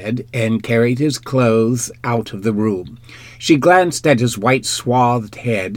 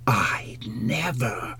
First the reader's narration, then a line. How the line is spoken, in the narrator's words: she whispered